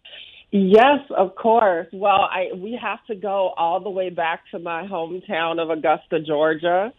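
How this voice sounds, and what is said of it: Southern American accent. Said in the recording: “I am a Southern girl through and through, if you can't tell from the accent.”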